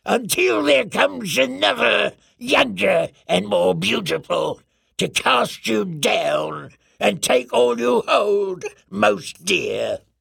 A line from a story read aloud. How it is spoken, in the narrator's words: she hissed